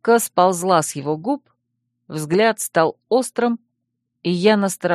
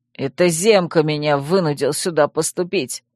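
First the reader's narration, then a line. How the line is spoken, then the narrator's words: Growl. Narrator (Russian): рыкнул Вемут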